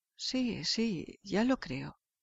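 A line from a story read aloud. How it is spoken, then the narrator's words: Stammering. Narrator (Spanish): El señor Lantín balbuceó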